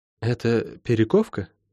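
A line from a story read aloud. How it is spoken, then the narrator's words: Quiet question. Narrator (Russian): тихо спросила Лайн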